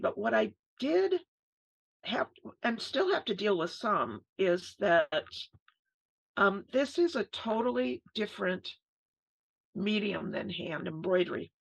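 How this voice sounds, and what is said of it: Strained, failing hoarse voice. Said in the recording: “I'm losing my voice.”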